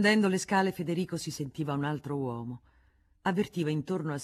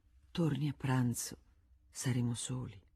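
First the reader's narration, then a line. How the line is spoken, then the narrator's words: Said softly. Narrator (Italian): gli disse sottovoce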